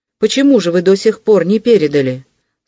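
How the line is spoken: Stern young man. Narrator (Russian): строго обратился молодой человек к Вельчининову

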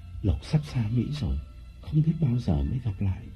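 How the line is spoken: Breathy intimate whisper. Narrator (Vietnamese): nói qua hơi thở

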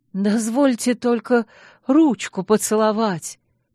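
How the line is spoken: Hoarse admirer's speech. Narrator (Russian): проговорил охрипший поклонник

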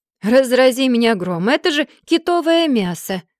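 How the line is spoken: Exclamation, stout man. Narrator (Russian): воскликнул викинг плотного телосложения, явно большой любитель покушать

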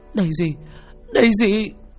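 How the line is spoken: Old woman wailing piteously. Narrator (Vietnamese): miệng bà kêu lên những tiếng thảm thiết

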